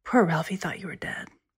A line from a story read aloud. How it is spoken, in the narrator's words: She said in a lower voice